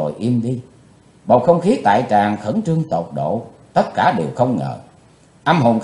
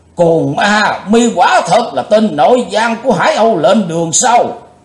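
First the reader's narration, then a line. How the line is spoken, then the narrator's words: Thunderous shout. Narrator (Vietnamese): Đồng Tăng Du Hiệp quát tợ như sấm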